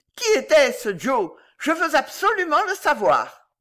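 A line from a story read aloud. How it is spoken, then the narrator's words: Shouted into ear. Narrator (French): cria dans l'oreille de la vieille lady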